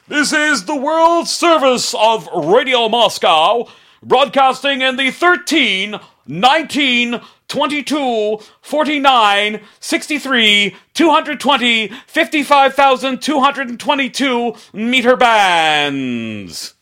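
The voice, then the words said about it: Loud, poor Radio Moscow announcer impression. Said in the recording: “yell really loudly to get that kind of, you know, echo effect ... not a very good impression.”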